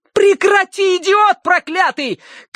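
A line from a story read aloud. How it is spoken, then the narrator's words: Shouted through window. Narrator (Russian): крикнула Ария в левое окно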